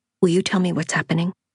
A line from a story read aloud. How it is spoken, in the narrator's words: I said quickly before I lost my nerve